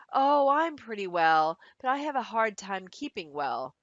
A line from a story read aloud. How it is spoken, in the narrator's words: She replied with a heavy sigh